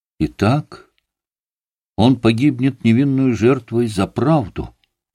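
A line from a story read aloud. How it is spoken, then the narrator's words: Exclaimed. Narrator (Russian): воскликнул Коля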